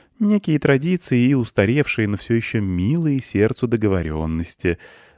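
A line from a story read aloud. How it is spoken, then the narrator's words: Sighing guest. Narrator (Russian): вздохнул гость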